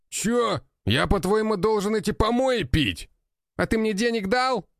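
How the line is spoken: Young man's shout. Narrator (Russian): крикнул парень

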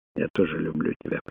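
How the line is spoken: Whispered. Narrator (Russian): прошептала она в ответ

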